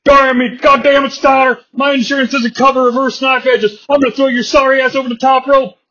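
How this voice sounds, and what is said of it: Gruff wrestler impression. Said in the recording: “I sound like Stone Cold Steve Austin, because I don't really know how to do an Arn Anderson impression.”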